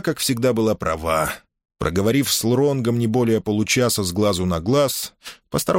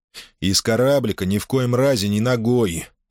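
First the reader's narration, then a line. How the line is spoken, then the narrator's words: Stern warning. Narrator (Russian): Строго наказывал он Киху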